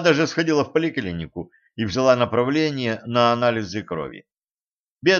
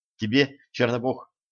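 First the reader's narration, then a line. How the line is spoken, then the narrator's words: Muttering. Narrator (Russian): пробормотала Женька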